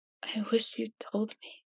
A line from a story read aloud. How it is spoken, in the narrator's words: he whispers